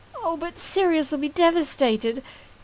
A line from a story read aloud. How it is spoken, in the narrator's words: his mother sobbed